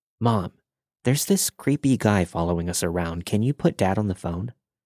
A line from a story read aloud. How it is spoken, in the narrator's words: I whispered